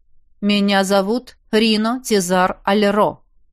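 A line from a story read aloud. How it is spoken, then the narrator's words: Slow deliberate speech. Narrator (Russian): медленно произнес Арагорн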